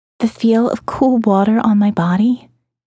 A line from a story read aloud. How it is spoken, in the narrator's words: she said